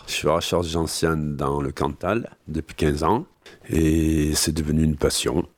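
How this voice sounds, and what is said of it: Cantal regional French accent. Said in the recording (French): “avec son accent cantalien”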